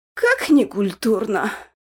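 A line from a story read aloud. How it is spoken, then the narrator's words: Sighing. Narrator (Russian): вздохнул Кельмир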